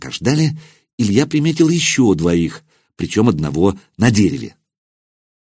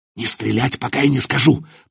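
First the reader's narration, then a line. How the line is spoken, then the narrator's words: Hissed command. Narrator (Russian): прошипел Илья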